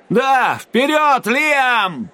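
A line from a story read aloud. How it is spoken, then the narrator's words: Shouted from behind. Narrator (Russian): кричал позади меня Сойер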